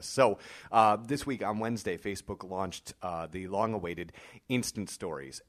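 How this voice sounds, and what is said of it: Voice fading, losing its strength. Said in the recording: “losing my voice ... my voice is likely going to dance in and out”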